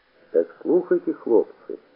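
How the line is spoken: Hoarse bandit chief. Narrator (Russian): хрипло сказал кто-то, видимо, атаман бандитов

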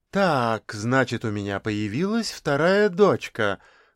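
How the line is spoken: Forced cheerful question. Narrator (Russian): нарочито весело поинтересовалась Зоя Владимировна

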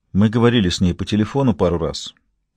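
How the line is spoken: Quiet start. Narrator (Russian): тихо начал Эшер

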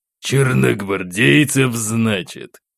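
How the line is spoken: Captain's gloomy curt remark. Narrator (Russian): Хмуро бросил капитан

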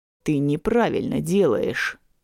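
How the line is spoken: Displeased grumble close by. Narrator (Russian): недовольное ворчание над самым ухом

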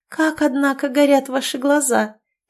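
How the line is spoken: Cooing. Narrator (Russian): проворковала она

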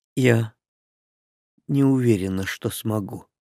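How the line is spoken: Quiet. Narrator (Russian): тихо проговорила Линда

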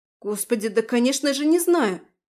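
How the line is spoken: Exclamation. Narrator (Russian): воскликнула Марина

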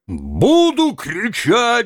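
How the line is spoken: Wailing yell. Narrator (Russian): вопил Тарантьев

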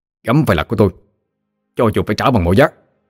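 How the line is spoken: Hiss. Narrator (Vietnamese): Hắn ta rít lên

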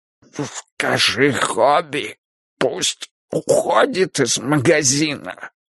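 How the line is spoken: Hoarse speech. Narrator (Russian): хрипло сказал

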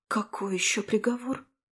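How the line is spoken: Breathed out. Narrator (Russian): выдохнула

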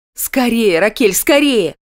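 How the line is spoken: Sharp urging shout. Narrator (Russian): прикрикнула я

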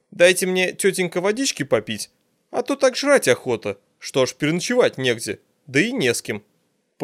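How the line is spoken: Brisk formal report. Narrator (Russian): Отрапортовал Мельников

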